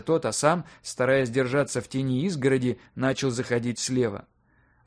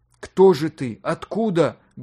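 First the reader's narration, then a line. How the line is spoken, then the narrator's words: Loud question. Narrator (Russian): громко спросил Юлий Иванович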